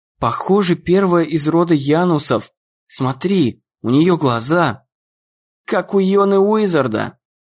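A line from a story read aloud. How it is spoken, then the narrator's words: Plain. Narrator (Russian): сказал Дэн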